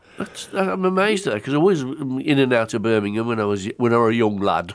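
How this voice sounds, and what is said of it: Slips into a Yorkshire accent. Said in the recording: “I've gone to a Yorkshire accent there”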